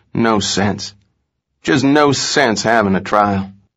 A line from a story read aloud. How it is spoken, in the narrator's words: Hickok ... again and again murmured